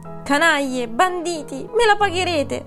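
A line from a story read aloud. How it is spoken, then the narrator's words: Chimpanzee shrieking. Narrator (Italian): strillò lo scimpanzé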